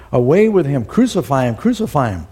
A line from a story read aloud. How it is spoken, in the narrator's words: they cried with a loud voice